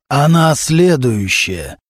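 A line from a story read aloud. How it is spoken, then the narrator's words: Hoarse male voice, over phone. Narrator (Russian): раздался из трубки хриплый мужской голос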